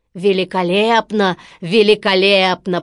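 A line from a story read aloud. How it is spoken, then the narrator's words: Deep booming voice. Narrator (Russian): пробасил Стромболи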